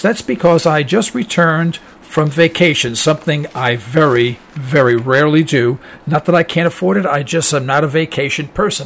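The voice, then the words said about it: Slightly raspy voice. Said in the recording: “I sound a little raspy”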